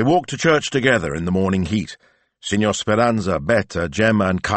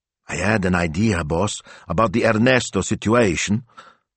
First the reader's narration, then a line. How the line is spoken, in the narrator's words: Smilzo whispered